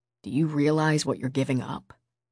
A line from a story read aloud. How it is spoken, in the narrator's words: Finn asked softly